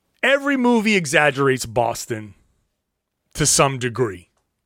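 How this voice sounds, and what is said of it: Usual voice. Nothing is said of it.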